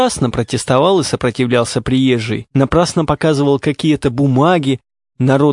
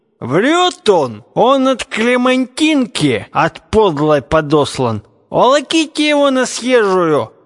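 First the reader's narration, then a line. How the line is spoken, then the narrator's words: Men shouting together. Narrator (Russian): кричали атаманы-молодцы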